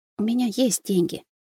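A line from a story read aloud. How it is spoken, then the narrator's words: Quiet, almost whispering. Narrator (Russian): негромко ответила она, снижая тон и переходя едва ли не на шепот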